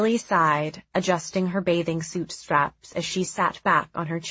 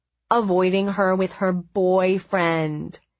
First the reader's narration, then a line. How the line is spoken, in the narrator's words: he said in his flat, nasal tone